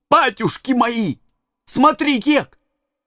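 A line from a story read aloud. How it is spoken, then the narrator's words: Exclamation. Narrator (Russian): Том воскликнул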